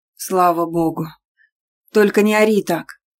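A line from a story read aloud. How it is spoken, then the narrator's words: Exhaled. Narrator (Russian): выдохнул Исаев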